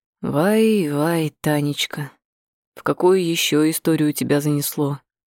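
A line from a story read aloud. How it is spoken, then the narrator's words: Sighing. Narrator (Russian): Он вздохнул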